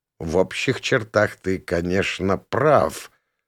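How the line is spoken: Muttered. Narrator (Russian): пробормотал я

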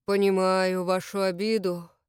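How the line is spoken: Sighing. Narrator (Russian): Колотков вздохнул

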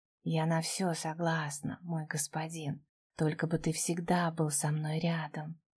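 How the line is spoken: Very quiet breathy whisper. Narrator (Russian): выдохнула мне в губы совсем тихо

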